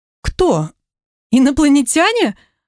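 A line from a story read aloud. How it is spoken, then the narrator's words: Surprised exclamation. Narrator (Russian): воскликнула Маша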